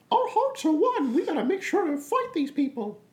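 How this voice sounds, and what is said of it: Mickey Mouse cartoon character voice. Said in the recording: “Mickey Mouse impressions”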